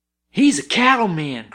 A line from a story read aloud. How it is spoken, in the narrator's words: cried Billy